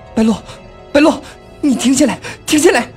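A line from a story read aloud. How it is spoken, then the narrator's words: Shouting. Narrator (Chinese): 尚小蝶在他耳边大喊着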